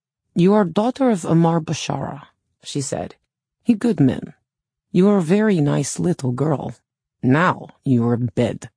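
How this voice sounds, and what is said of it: Thick foreign accent. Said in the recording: “spoke with a thick accent.”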